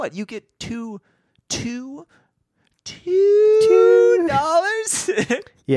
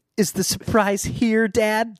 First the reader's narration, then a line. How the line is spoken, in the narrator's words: Joe asked excitedly